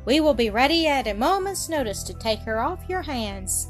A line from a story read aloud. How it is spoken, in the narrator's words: she added playfully